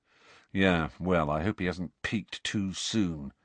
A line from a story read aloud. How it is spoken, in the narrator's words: said Fred gloomily